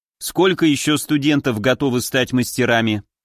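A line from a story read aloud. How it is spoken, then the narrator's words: Plain. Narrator (Russian): спросил я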